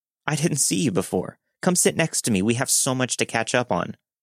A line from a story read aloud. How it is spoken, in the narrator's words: a woman in her early 20s called out to me with a random name and said